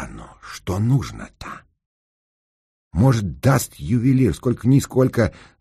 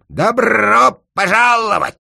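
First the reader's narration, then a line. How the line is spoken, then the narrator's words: Parrot's nasty screech. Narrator (Russian): птица-попугай проорала противным голосом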